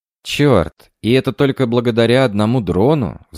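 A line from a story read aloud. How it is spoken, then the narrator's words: Sighing. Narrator (Russian): вздохнула Лия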